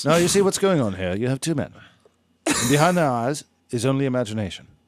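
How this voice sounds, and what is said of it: Nature documentary narrator voice. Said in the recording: “in a David Attenborough voice”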